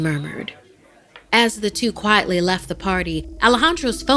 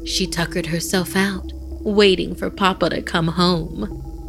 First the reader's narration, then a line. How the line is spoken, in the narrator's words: Mariana chuckled